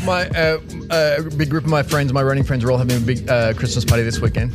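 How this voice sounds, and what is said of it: Speaks with a noticeable accent. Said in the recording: “I've got an accent.”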